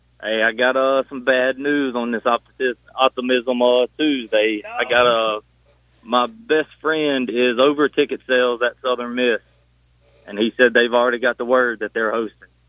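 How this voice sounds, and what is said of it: Southern Gulf Coast accent. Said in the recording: “your accent sounds like you're maybe from an area near the bayou”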